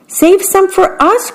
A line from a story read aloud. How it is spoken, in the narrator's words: cried the small birds